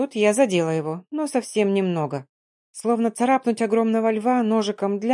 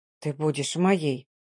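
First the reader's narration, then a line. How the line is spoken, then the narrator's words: Delirious panting male whisper. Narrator (Russian): словно в бреду прошептал мужчина, дыша при этом паровозом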